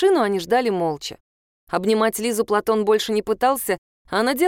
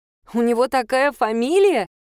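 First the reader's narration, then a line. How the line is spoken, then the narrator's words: Bursting into laughter. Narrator (Russian): она зашлась хохотом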